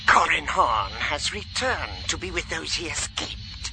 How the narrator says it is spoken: she hissed

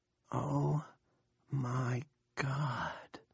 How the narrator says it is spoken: Nori whispers

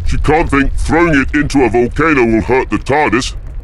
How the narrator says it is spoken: Victoria bellowed

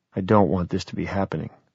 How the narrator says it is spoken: I said softly

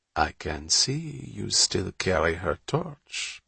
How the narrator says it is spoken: Bonterre purred, with a cheerful smile

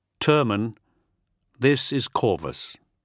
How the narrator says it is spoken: he said slowly

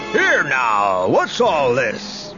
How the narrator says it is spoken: bellowed a voice

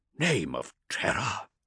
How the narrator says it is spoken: Hector gasped when he realised what was happening

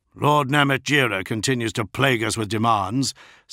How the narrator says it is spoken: said Herzog

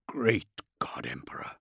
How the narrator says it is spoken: Heth whispered

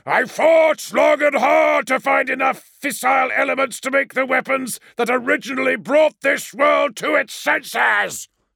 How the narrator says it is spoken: shouted Perturabo over the moaning, hot death wind blowing from Cardis

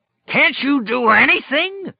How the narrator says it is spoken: Flagg roared

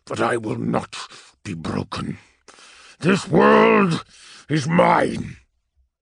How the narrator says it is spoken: he rumbled

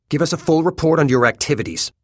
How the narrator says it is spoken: he says curtly

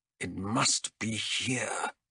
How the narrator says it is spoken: he muttered

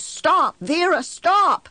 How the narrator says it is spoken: I ran as fast as I could, shouting

